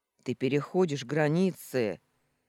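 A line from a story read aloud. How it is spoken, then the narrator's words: Furious, through gritted teeth. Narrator (Russian): С яростью процедил Сергей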